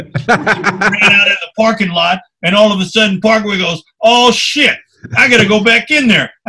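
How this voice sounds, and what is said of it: Ricky Henderson impression. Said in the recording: “your Ricky Henderson impersonation is amazing”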